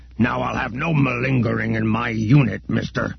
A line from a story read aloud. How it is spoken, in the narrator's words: grunted Ugbuzz